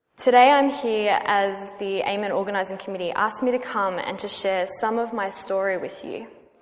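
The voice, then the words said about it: Australian accent. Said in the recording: “As you can probably hear from my accent, I am not from here. I'm Australian, or Aussie as we call ourselves”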